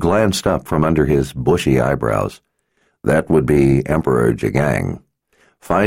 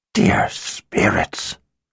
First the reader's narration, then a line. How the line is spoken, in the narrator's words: Zed whispered